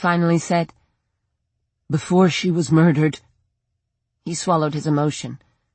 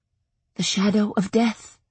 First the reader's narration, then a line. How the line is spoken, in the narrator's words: I whispered